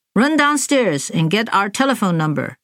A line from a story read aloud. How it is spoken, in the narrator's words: he'd said